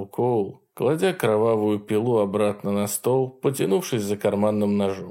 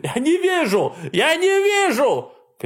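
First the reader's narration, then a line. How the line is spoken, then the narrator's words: Shouting. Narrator (Russian): кричал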